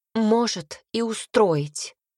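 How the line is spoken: Angry blurt. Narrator (Russian): выпалила она зло

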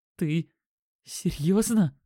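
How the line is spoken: Strained, breaking into hoarseness. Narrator (Russian): выдавил он, голос сорвался на хрип

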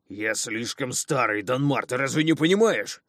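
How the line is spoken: Near growl. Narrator (Russian): Едва не прорычал он

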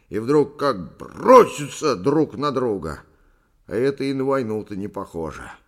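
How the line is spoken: Angry. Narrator (Russian): сердито закончил Повондра

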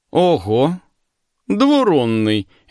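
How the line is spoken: Cheerful greeting. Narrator (Russian): весело приветствовал меня Алерик

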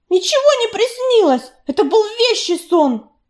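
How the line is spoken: Snappish retort. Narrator (Russian): Огрызнулась Белочка

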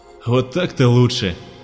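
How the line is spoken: Relieved sigh. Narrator (Russian): облегченно вздохнул полковник

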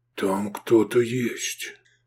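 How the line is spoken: Dull muffled voice. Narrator (Russian): глухо выговорил Исмат

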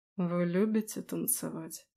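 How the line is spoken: Slightly hoarse. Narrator (Russian): Голос Аласдера прозвучал чуть хрипло

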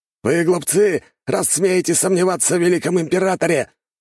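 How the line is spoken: Shout. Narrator (Russian): выкрикнул защитник

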